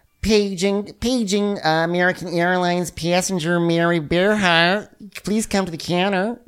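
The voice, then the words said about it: Put-on Michigan accent. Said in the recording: “I just flounder when I try to get that Michigan accent ... That's basically what Nicole sounds like.”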